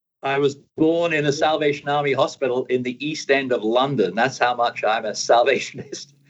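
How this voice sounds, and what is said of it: London accent. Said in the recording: “You've mentioned London a few times, and I hear this crazy accent.”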